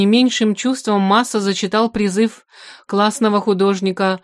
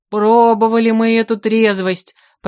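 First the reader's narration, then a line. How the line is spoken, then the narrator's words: Deep bass voice. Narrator (Russian): пробасил Разумовский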